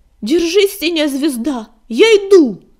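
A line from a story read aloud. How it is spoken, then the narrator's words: Yelling. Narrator (Russian): заорал Огнегрив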